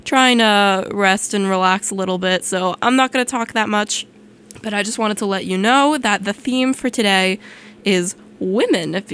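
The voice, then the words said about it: Sick, unwell-sounding voice. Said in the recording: “As you can kind of tell from my voice, I'm not feeling 100% today.”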